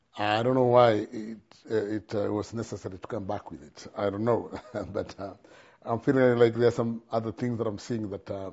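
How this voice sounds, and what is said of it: Noticeable accent. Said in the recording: “I know my accent is bad”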